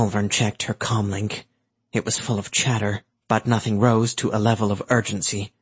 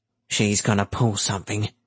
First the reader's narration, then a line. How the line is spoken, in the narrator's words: Cap grumbled